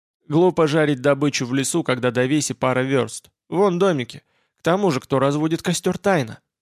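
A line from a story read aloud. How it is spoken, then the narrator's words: Skeptical snort. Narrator (Russian): Олаф хмыкнул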